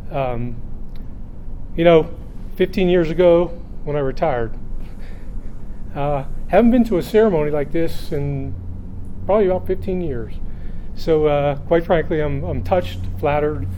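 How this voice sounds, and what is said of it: Quivering, emotional voice. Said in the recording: “You can tell the quivering in my voice.”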